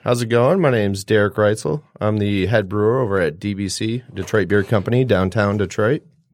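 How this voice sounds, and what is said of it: Good radio voice. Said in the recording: “You have a pretty good radio voice, I think. Probably better than mine.”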